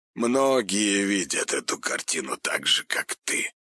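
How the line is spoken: Hoarse reply. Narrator (Russian): хрипло ответил Большаков

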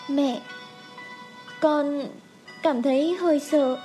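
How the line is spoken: Soft call. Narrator (Vietnamese): Khương Trầm Ngư khẽ gọi

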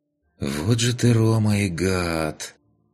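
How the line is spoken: Sighing. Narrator (Russian): вздохнул в канале Пончик

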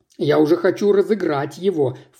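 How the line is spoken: Snorted. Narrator (Russian): фыркнула та

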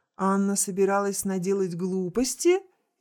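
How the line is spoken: Cheerful question. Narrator (Russian): весело спросила конфетка

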